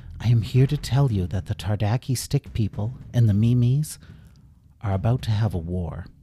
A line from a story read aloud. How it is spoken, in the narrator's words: He smiled warmly at the king and said